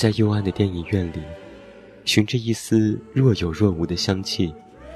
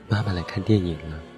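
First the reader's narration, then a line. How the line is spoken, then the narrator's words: Trembling whisper. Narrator (Chinese): 我颤抖着在爸爸的耳边轻声说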